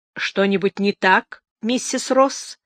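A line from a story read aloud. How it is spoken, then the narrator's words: Stern lawyer's question. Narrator (Russian): строго спросила адвокат Ардис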